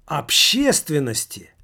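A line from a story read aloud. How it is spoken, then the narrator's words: Hopeful elderly exclamation. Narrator (Russian): воскликнул пожилой, с непонятной для того надеждой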